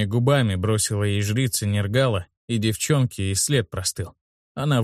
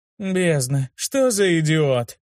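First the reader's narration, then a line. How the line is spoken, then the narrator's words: Exclaimed. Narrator (Russian): воскликнула Тиса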